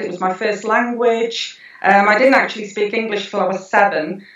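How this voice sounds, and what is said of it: Welsh accent. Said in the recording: “a sort of a particularly interesting twang ... the Welsh twang”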